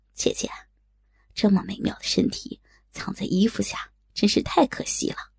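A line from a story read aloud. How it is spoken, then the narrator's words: Sly chuckle. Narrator (Chinese): 他嘿嘿的笑道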